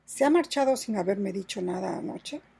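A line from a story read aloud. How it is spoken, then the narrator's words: Murmuring. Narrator (Spanish): murmuró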